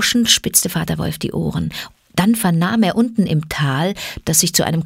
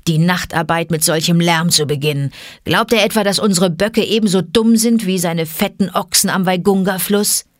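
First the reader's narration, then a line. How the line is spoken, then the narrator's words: Growled. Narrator (German): knurrte Vater Wolf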